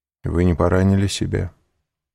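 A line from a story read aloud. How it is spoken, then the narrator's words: Cold question. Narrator (Russian): холодно спросил Морель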